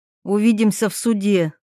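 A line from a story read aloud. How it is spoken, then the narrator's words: Barking. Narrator (Russian): рявкнув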